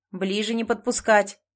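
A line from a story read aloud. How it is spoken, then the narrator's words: Barked shout. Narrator (Russian): рявкнул Захар в сторону берега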